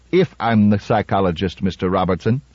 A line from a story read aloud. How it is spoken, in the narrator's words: said Susan Calvin coldly